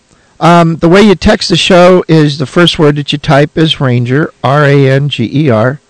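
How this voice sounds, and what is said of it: Hoarse voice. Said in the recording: “my voice is a little hoarse. ... I like my voice being hoarse. ... I think it's perfectly acceptable that my voice be hoarse, that I be a little horsey.”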